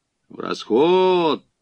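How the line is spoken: Menacing cheerful crowd rumble. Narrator (Russian): Грозно и весело загудели кавалеристы

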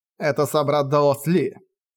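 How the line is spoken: Snorting. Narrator (Russian): хмыкнул Джоу Де Кунь

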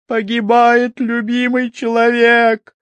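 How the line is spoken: Screaming in face. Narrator (Russian): закричала она в лицо

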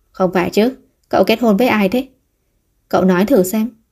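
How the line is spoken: Stunned muttering. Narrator (Vietnamese): Thương Trạch Việt sửng sốt vài giây rồi lẩm bẩm

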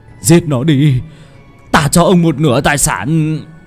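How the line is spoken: Pained screaming. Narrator (Vietnamese): lão Phát đau đớn gào thét

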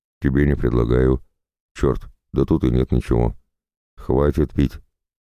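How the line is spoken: Stern voice. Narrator (Russian): строго молвила Марта

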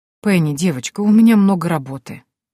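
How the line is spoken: Old man's sad sigh. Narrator (Russian): грустно вздохнул старик

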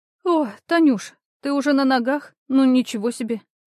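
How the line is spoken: Grumbling with a yawn. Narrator (Russian): буркнула она и зевнула

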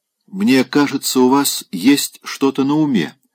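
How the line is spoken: Plain. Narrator (Russian): сказала она

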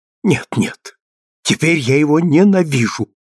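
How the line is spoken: Passionate exclamation. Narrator (Russian): воскликнула страстно

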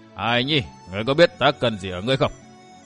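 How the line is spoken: Changed tone, loud laughter. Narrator (Vietnamese): Đông Cuồng đổi giọng cười to nói

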